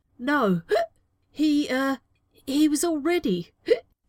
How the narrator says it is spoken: sputtered Novak, looking trapped

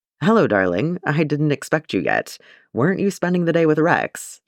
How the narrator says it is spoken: he asked

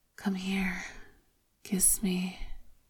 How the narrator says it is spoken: Lan Qichen is apparently oblivious and breathlessly whispers

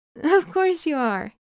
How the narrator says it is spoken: Wei Wuxian says happily

